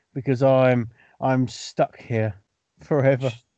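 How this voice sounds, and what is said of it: Sad, dejected tone. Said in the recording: “You said that so sadly.”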